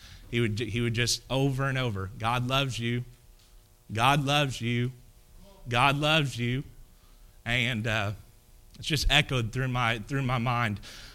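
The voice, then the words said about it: Emotional, choked-up voice. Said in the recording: “I'm sorry I get emotional whenever I talk about my papaw”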